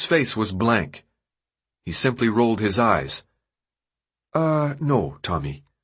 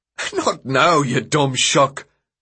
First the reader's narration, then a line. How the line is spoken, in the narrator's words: Newt laughed